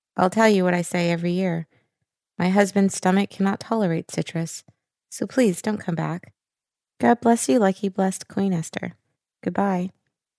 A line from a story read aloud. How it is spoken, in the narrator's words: a woman's voice quavered